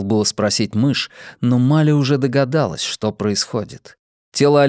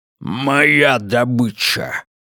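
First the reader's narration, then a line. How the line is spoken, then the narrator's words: Growled. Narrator (Russian): рыкнул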